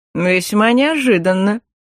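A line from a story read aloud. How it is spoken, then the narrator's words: Bemused snort. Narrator (Russian): хмыкнул маг, едва справился с оторопелостью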